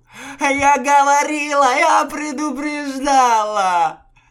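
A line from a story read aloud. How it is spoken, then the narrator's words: Wailing. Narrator (Russian): Взвыла Акыс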